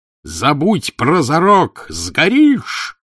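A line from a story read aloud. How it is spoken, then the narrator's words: Shouted then groaned. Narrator (Russian): крикнул Евпатьев и простонал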